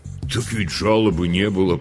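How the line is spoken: Deep bass voice. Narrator (Russian): пробасил Гриша

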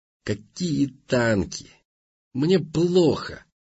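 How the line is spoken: Angry muttering. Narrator (Russian): буркнул Раздолбай, злясь

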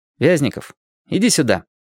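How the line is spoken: Neutral voice. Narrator (Russian): нейтральным голосом сказал Лесь

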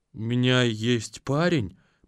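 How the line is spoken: Mumbled. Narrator (Russian): промямлила агентша

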